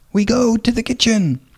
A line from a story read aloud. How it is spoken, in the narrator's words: was shouted